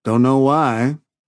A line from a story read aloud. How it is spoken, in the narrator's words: Laredo drawled